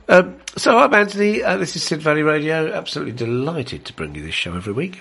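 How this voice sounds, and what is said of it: Sick, congested-sounding voice. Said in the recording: “You can hear by my voice that I'm suffering a little bit from man flu ... I've been sneezing a lot.”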